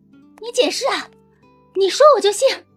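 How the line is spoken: Shouting from behind. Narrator (Chinese): 冯锦在他背后喊

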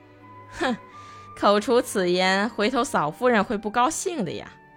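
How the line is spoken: Laughing warning. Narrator (Chinese): 迷婷边笑边警告主人说

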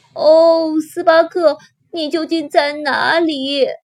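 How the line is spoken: Crying out. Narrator (Chinese): 他哭喊道

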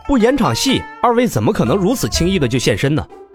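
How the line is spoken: Smiling. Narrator (Chinese): 罗晨笑道

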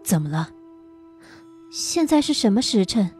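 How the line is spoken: Soft, startled question. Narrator (Chinese): 心中一惊 轻声问道

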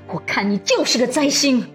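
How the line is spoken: Angry. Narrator (Chinese): 徐雅慧又怒道

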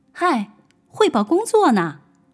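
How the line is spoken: Shouting. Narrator (Chinese): 我就冲着他喊

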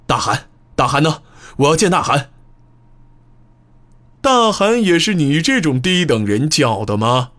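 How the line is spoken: Loud, alarmed shouting. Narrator (Chinese): 阿鲁卜感到情况不妙，立刻大声叫嚷道

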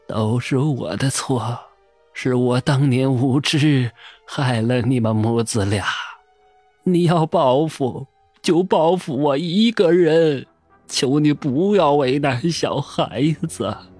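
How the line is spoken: Murmuring. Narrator (Chinese): 口中喃喃的道

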